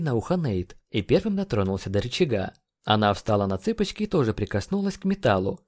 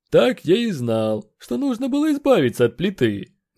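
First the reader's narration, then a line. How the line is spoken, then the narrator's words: Displeased grumbling. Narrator (Russian): Недовольно проворчал Гринд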